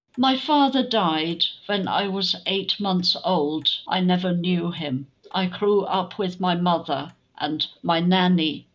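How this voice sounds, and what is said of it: Slight German accent. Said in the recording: “I can hear a slight German accent.”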